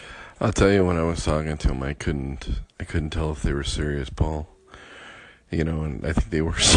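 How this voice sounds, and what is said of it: Usual voice. Nothing is said of it.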